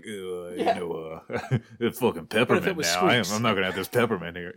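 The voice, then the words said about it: Imitates another person's voice, dumb-guy. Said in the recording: “Did a little Sly Stallone impression. ... that wasn't a bad Stallone ... make somebody sound like a dumb guy”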